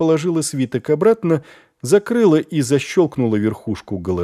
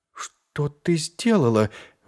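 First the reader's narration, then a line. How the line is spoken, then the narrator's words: Strained, forced words. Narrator (Russian): выдавила из себя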